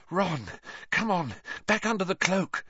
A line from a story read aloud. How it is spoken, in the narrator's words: Hermione panted